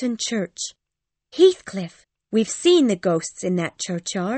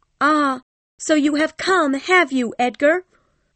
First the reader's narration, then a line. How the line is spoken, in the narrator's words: Kathy cried